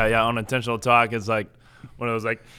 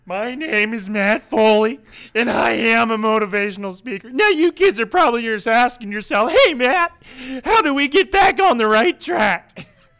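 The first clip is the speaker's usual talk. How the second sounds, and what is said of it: Chris Farley as Matt Foley. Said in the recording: “a Chris Farley impression ... Matt Foley”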